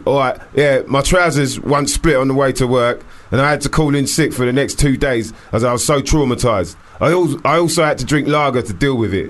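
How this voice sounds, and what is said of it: Put-on East London Stepney accent. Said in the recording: “I gave you a bit of a Stepney accent”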